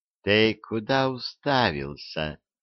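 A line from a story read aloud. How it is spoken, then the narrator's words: Affectionate question. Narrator (Russian): ласково спросила она барина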